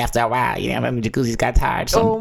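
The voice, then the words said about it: Imitation of Mama Jones' voice. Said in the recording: “imitating Mama Jones' voice”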